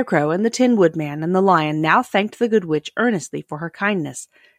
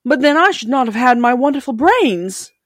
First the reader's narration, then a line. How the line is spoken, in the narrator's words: cried the Scarecrow